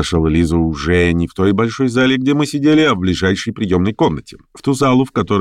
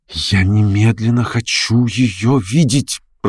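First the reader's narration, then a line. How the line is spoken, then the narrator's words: Whisper. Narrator (Russian): прошептала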